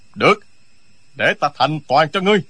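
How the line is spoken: Shouted. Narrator (Vietnamese): Chưởng bác long đầu quát

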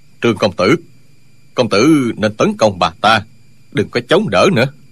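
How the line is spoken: Low voice. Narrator (Vietnamese): Dương Tiêu hạ giọng nói

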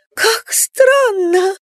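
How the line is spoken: Breathy sobbing. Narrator (Russian): с придыханными всхлипами произнесла она

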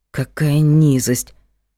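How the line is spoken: Muttered. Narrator (Russian): пробормотала Магда

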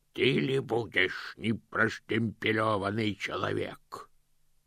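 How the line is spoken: Growled. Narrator (Russian): прорычал один из них

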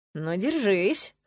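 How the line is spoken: Smirking snort. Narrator (Russian): хмыкнула я

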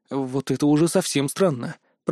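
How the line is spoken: Muttered. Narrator (Russian): пробормотал я

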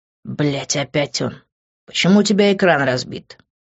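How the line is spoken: Angry question. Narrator (Russian): зло спросил Грант

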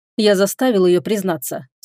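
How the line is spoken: Dry, curt. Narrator (Russian): сухо сказал владыка

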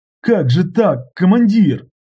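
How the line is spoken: Sobbing question. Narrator (Russian): всхлипывая, спросил Сергеев

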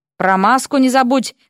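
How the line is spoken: Breathless shout. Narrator (Russian): крикнул Уилл, едва поспевая за ней

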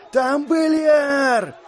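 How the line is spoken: Yell. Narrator (Russian): заорал он

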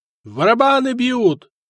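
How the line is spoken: Shout. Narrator (Russian): крикнул наблюдатель

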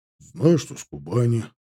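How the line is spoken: Gruff mutter. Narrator (Russian): буркнул Таран

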